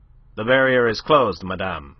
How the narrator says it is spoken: she was curtly informed

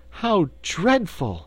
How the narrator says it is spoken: she exclaimed

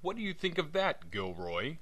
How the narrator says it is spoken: cried Wilson in a kind of ecstasy

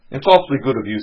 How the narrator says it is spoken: said Mike

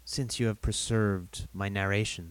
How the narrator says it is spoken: said he

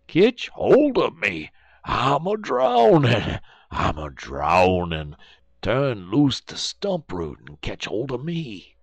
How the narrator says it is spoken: Brer Terrapin, he keep on hollering

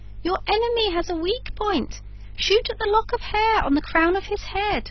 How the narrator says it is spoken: called out the woodpecker

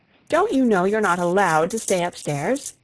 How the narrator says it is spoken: asked Miss Zielinski crossly

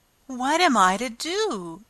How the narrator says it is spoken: exclaimed Alice in great perplexity

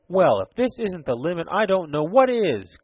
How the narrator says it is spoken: cried Ned Newton

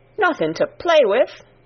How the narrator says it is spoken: exclaimed Martha

